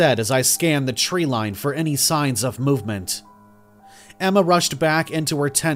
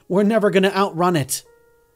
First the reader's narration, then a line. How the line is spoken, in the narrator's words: Emma said, panting